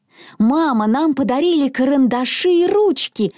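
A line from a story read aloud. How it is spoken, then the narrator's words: Exclamation. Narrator (Russian): воскликнула Мона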